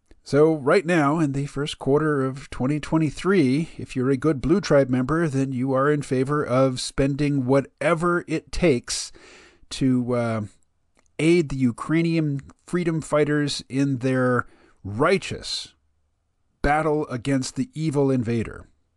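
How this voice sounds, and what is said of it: Mocking, sarcastic tone. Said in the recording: “my tone, you know, my tone of voice there is somewhat mocking”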